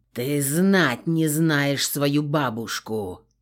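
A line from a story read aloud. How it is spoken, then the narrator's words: Growled. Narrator (Russian): прорычал Кристиан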